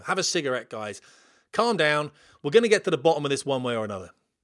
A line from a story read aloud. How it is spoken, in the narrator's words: chuckled the trainer